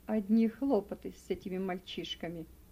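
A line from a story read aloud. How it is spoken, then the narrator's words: Sighing. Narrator (Russian): вздохнул Гели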